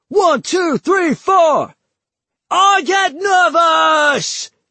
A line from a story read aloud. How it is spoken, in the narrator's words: Nigel shrieked